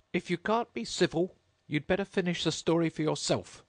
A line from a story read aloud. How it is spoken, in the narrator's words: the Dormouse sulkily remarked